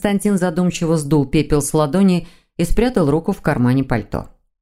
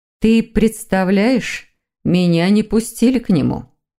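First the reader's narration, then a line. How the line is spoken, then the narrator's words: Sigh. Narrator (Russian): вздохнула женщина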